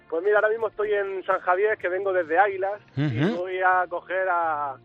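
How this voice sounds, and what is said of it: Murcian Spanish accent. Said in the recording (Spanish): “mi acento murciano”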